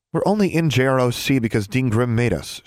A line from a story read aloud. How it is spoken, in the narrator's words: she said